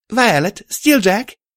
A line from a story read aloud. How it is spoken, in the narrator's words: I called out